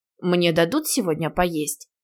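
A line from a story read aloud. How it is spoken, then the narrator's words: Grumbling glutton. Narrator (Russian): проворчала обжора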